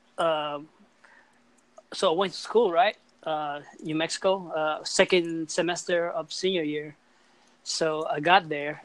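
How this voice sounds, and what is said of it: Speaker's own non-native English accent. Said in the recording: “my English is not as good ... there's no way I can get rid of my accent. I guess my accent is like, I mean, it's stuck for me. It's stuck with me forever.”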